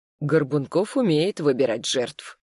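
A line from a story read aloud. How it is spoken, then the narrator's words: Gloomy remark. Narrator (Russian): мрачно заметил Ярослав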